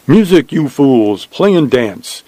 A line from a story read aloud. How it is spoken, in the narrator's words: Joshua shouted